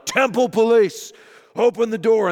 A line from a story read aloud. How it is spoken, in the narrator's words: a voice is gonna yell out